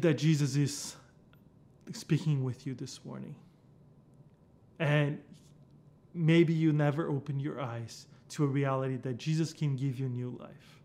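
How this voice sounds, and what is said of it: Brazilian-accented English. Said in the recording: “You heard me speak this different accent. Yeah, I'm from Brazil.”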